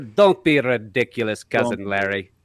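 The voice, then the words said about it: Made-up foreign accent. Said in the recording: “do a Balky accent when they want to be a foreigner ... he's not from a real place ... This is not a real accent.”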